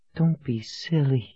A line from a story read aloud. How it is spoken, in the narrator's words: she whispered